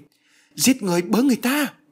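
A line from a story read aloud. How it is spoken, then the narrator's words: Panicked cry. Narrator (Vietnamese): Bà hoảng hốt kêu lên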